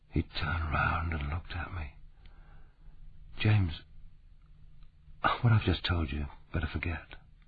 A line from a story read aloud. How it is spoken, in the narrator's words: Rupert paused, and then said almost in a whisper